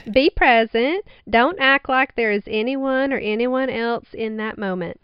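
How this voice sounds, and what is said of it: Put-on Southern accent. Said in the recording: “In a southern accent.”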